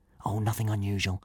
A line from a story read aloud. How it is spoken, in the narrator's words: Hiccup whispered back